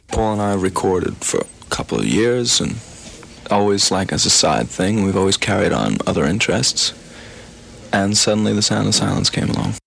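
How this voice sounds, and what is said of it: New York accent. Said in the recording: “You can really hear the New York accent in these clips”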